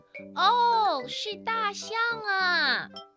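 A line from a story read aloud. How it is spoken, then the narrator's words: Excited shout. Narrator (Chinese): 玛丽马上就明白了，她大喊起来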